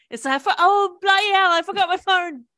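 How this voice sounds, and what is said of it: Put-on British accent. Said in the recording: “I would have started speaking in a British accent.”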